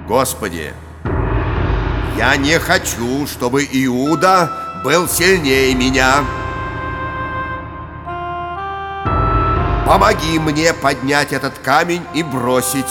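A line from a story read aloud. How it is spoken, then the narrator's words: Loud, flushed, determined. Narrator (Russian): Весь красный, решительно громко сказал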